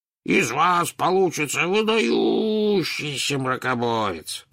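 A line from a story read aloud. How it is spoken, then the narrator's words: Booming drone. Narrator (Russian): прогудел Слизнорд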